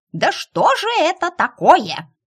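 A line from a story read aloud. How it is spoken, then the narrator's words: Indignant yell. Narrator (Russian): возмущенно завопила Белка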